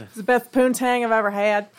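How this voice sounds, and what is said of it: Put-on Southern accent. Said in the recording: “I don't know why I went southern with that... you keep that southern accent up”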